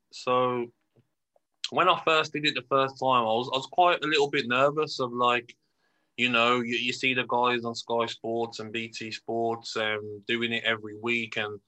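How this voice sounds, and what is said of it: Brummie (Birmingham) English accent. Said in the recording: “my accent, the Brummy accent.”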